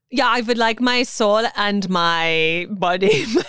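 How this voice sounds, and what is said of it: Put-on German-sounding accent. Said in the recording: “Are you German now?”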